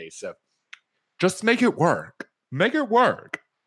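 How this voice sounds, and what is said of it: Tim Gunn impression. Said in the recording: “terrible Tim Gunn impression ... I'll do better”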